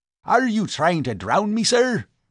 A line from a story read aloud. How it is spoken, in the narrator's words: barked the professor